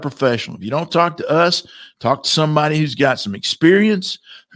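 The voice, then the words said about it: Hoarse, fading voice. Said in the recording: “I guess I'm losing my voice.”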